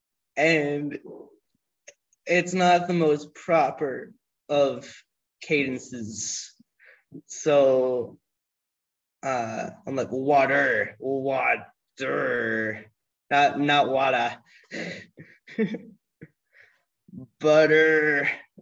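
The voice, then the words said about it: New England accent. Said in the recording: “I'm still a kid with a New England accent.”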